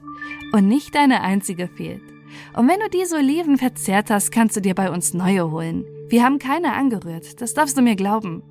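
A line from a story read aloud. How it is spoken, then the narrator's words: Laughing. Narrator (German): sagte Anna lachend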